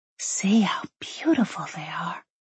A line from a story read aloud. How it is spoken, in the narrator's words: Molly murmured, tone filled with marvel